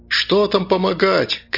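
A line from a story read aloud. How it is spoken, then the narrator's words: Young crowd shouting. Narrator (Russian): кричали молодые парни, девушки, особенно подростки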